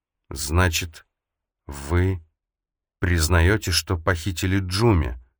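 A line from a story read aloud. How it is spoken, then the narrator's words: Forced out with effort. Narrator (Russian): в конце концов выдавила она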